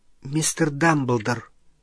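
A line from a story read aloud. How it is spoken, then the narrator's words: Timid question. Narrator (Russian): робко спросила Гермиона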